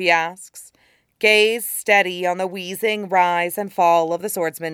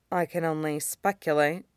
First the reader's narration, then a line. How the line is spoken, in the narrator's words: she mutters, voice tinged a thoughtful blue